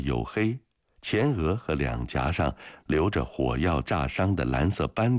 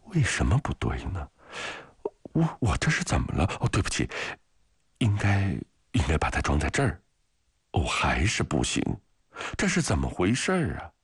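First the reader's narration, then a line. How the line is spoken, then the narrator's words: Flustered mumbling. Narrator (Chinese): 格维格扬茨 总是弄得手忙脚乱，窘迫地嘟囔着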